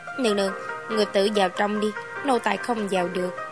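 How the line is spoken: Quiet voice. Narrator (Vietnamese): Lý Công Công nói nhỏ

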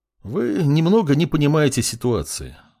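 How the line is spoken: Sighing. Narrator (Russian): вздохнул профессор

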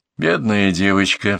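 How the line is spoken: Sighing. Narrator (Russian): вздохнула Ломанова

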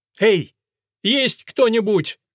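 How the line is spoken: Shout. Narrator (Russian): крикнул

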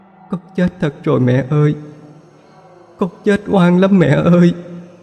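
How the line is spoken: Sobbing voice. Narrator (Vietnamese): Phượng giọng nức nở hơn

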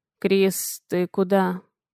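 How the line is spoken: Sleepy mumble. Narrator (Russian): Бормочет сквозь сон

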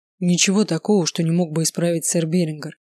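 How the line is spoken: Calm. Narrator (Russian): спокойно ответил лорд

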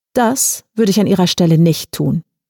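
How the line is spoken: Calm stranger's reply. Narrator (German): entgegnete der Fremde ruhig

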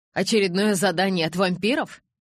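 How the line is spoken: Grumble. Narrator (Russian): проворчала Ли

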